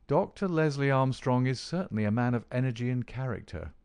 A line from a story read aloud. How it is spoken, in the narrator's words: said he